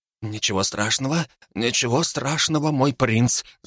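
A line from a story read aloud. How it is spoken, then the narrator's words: Muttering while walking. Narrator (Russian): забормотал он на ходу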